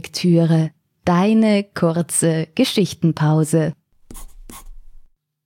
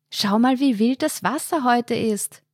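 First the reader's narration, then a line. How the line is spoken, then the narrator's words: Call nearly drowned by wind. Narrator (German): rief sie Markus zu, ihre Stimme wurde fast vollständig vom Wind verschluckt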